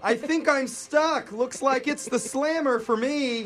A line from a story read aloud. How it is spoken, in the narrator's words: she could still be heard on the bullhorn yelling